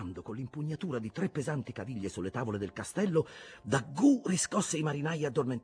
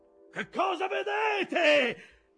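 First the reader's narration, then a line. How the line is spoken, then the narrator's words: Shouted. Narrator (Italian): gridò Aqab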